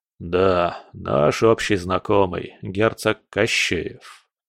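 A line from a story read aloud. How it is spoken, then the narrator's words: Gloomy confirmation. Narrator (Russian): мрачно подтвердил Кудряшов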